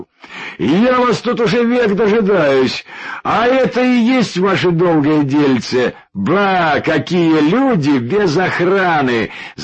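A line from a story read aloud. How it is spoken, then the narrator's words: Shout. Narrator (Russian): закричал он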